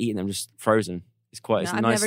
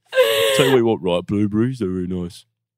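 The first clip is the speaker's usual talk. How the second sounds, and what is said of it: Imitates another person's voice. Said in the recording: “You sound like Marcus right now. ... That's a Marcus. Really good impression.”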